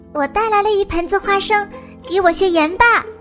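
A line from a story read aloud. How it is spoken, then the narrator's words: Happy little cry. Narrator (Chinese): 带着花生的小狸猫高兴的叫了起来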